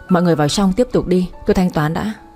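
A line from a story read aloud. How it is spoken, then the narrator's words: Cold. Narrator (Vietnamese): Anh lạnh lùng bảo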